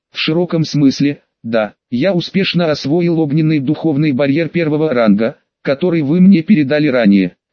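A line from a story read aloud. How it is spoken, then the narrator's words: Plain. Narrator (Russian): сказал Му Чэнь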